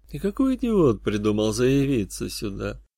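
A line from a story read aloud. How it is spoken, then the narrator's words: Mutter under breath. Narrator (Russian): пробормотал под нос грешник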